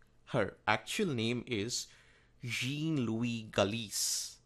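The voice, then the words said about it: Put-on French accent. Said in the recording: “That's the best I can do in French accent.”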